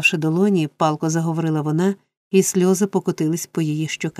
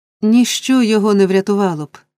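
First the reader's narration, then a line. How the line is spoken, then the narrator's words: Girl crying out. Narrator (Ukrainian): скрикнула дівчина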